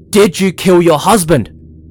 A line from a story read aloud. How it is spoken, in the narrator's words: the county magistrate yelled